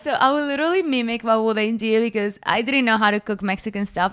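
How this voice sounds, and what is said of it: Non-native English accent. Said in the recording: “The accent, guys. ... Language barrier.”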